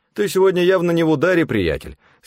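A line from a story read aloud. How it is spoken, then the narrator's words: Forced cheerfulness. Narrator (Russian): сказал один из них, нарочито весело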